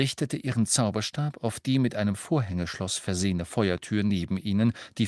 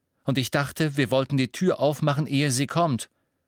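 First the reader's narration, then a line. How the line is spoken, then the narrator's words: Said sternly. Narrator (German): sagte Ron streng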